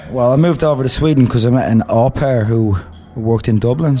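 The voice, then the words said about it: Irish accent. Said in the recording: “has an Irish accent”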